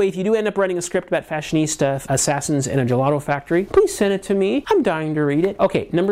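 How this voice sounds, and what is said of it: Usual voice. Nothing is said of it.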